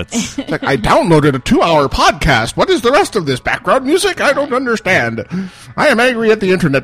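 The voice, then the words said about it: Old man voice. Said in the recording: “I'm talking in the old man voice.”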